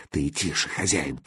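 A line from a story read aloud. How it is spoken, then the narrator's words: Assistant whispering. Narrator (Russian): прошептал помощник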